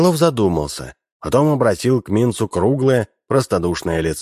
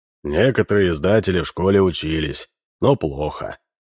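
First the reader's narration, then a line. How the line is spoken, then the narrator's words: Sighing. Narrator (Russian): вздохнул Минц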